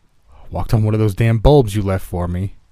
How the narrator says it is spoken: he grunted

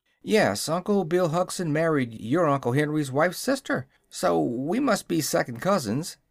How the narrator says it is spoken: said the boy in an amused tone

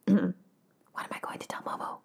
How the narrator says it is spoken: I whispered to no one in particular

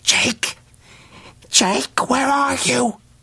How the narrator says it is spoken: his tongue dry and heavy in his mouth as he called in a hoarse whisper

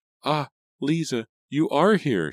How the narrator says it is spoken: she cried

